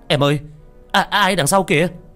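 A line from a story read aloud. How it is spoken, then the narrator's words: Sudden loud yell. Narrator (Vietnamese): còn đang trong trạng thái hân hoan thì anh chồng hét toáng lên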